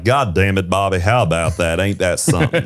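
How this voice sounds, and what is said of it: Put-on Texas Dallas accent. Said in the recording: “the Texas like accent. Like Dallas is very like King of the Hill ... that sounds like you're Kentucky ... that was much closer”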